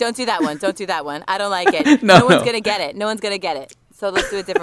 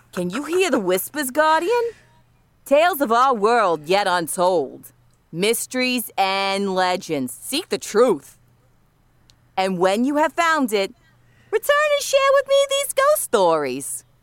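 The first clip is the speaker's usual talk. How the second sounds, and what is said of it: Badly done Brooklyn accent. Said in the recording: “She's like doing a Brooklyn accent wrong ... That's the shittiest Brooklyn accent I ever heard.”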